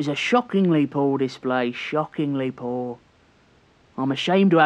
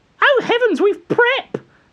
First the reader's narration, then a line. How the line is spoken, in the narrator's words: Stringer imitated in a screeching, foppish voice